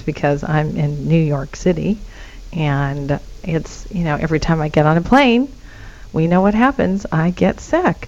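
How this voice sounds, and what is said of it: Hoarse, raspy voice. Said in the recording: “you can hear it in my voice, actually. I have a little bit of laryngitis”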